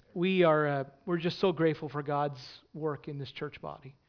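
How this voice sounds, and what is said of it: Emotional, choked-up voice. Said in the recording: “I'm a little emotional this week.”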